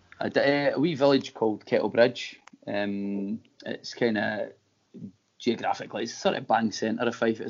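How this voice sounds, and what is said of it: Scottish Fife accent. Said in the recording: “by your accent, that you grew up in Fife ... I think I've got a bit of a hybrid accent. Like broad Fifer”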